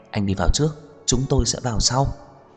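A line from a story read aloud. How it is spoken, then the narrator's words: Quiet, soft. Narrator (Vietnamese): Lâm Sở Nhai nói khẽ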